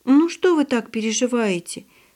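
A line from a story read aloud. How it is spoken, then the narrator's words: Girl's pitying voice. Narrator (Russian): жалостливым голосом произнесла девочка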